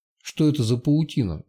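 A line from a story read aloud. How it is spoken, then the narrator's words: Quiet question. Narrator (Russian): негромко спросила Сашка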